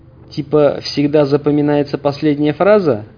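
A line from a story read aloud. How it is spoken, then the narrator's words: Snide smiling. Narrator (Russian): ехидно улыбнулся Хаус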